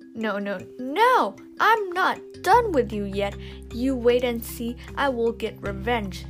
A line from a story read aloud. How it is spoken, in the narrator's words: the woman shouted and shouted